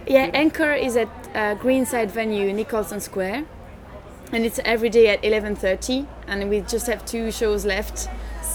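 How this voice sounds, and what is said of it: Belgian French-accented English. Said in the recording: “it doesn't sound like an Edinburgh accent. ... I'm originally Belgian. ... my mother tongue is indeed French.”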